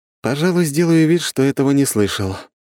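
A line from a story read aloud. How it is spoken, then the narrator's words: Heavy sigh. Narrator (Russian): тяжело вздохнул я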